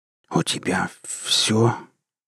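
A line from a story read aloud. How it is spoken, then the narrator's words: Shocked whisper. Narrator (Russian): прошептал Громов в шоке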